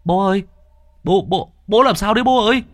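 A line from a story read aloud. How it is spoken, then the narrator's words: Alarmed child's shriek. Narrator (Vietnamese): Thằng Luận thấy biểu hiện của bố kỳ lạ thì rú lên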